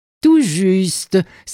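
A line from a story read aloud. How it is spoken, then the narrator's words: Laughing exclamation. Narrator (French): s'exclama sœur Tamra en riant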